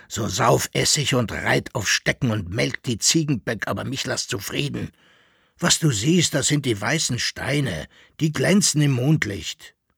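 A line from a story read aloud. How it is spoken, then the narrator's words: Grumbling. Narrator (German): brummte Koppelbär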